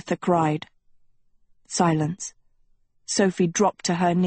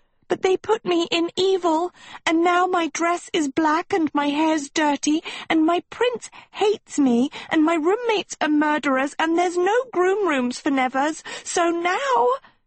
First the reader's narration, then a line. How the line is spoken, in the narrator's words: she let out a soprano wail